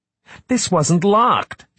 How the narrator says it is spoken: she said sharply

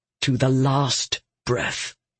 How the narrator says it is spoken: he murmured

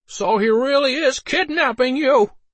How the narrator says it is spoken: Harold shouted

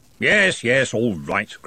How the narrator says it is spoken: grumbled Ridcully

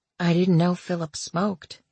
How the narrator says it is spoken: Hazel whispered

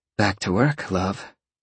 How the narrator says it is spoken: Roxy purred

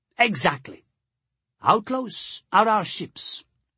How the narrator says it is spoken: he asked

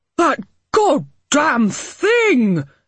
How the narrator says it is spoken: Harding roared

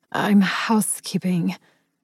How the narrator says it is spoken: I whispered

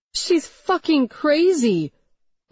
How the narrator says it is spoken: Lydia howled

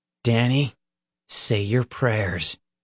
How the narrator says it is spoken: Peter said, his voice like cold steel

